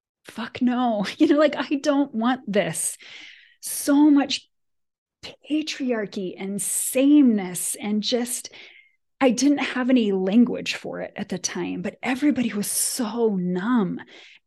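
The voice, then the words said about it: Passionate, emotionally charged speech. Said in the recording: “you can hear in my voice that I feel very passionately about it”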